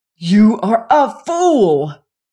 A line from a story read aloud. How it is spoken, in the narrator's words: he exclaimed